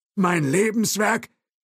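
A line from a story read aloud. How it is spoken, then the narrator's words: Calling out. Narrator (German): rief Thompson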